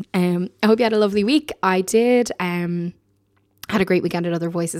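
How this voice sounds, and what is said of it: Slightly hoarse, recovering voice. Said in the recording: “my voice has only just returned to me ... I was complaining about being hoarse ... I ended up completely losing my voice ... I'm still obviously not 100% in terms of the tone and quality of my timbre”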